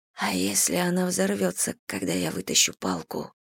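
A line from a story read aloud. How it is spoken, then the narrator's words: Whispered. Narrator (Russian): прошептала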